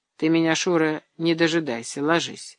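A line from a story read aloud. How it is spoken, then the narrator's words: Soft. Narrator (Russian): мягко сказал он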